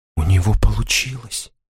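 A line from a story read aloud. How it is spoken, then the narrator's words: Whispering. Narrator (Russian): прошептал Элеонор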